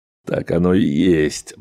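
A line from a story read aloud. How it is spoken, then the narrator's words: Grim. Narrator (Russian): мрачно произнес Грегор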